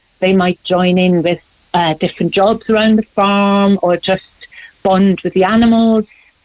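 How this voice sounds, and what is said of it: German accent. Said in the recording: “I was trying to place the accent. But you're from Germany”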